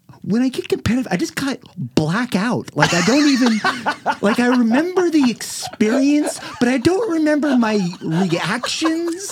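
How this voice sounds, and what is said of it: Imitates another person's voice. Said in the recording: “This is my Braylon impression, by the way.”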